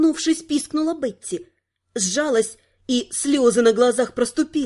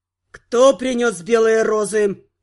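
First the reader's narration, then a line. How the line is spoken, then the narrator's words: Growling. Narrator (Russian): прорычал второй, тоже из тайной канцелярии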